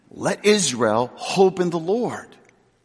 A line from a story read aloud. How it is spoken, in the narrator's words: the psalmist, with such confidence, can exclaim